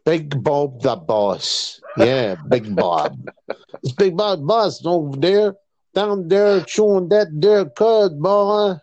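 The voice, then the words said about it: Put-on Southern drawl. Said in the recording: “He's got all Dukes of Hazzard on us ... it's a Campbell accent ... That's the way they speak at home”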